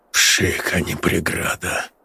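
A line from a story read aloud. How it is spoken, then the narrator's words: Muttered, confidence gone. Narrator (Russian): пробормотал он, и в его голосе не осталось и следа от былой уверенности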